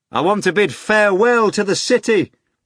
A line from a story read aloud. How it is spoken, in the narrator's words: the master shouted to Azazello